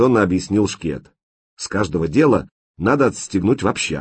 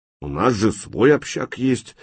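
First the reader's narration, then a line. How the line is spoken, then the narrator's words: Displeased grumbling. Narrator (Russian): недовольно пробурчал бомба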